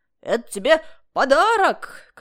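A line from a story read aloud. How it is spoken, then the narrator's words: Shout from the side. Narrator (Russian): кричал откуда-то сбоку Аким Ильич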